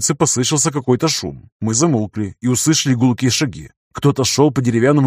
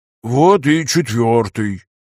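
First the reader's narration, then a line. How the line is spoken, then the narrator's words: Moaned. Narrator (Russian): простонал Федор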